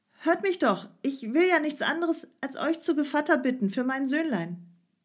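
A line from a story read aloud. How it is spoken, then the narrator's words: Loud call. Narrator (German): rief laut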